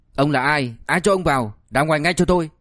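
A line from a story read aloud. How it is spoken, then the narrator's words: Furious shout. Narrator (Vietnamese): Tần Phong Hoa đang tràn đầy tức giận liền quát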